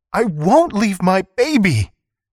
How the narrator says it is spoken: Kuikotl cried

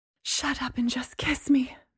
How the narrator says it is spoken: Mary said breathlessly

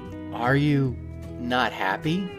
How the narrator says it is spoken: asked hesitantly

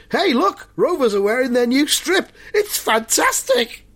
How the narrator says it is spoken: someone shouts

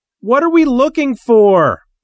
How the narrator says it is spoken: Timmy Galahad yelled above the gunfire and roaring engines

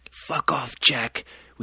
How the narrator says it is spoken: wheezed Toby

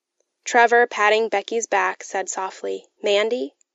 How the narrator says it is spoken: I cried

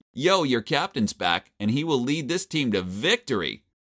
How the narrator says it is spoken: shouted

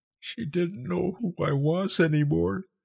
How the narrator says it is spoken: she choked, her voice small

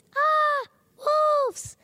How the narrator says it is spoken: he screamed

